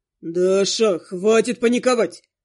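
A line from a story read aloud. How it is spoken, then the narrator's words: Irritated growl. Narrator (Russian): рыкнул явно раздраженный моим поведением призрак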